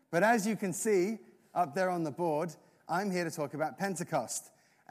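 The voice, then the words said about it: English accent. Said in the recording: “you hear my accent ... the English accent”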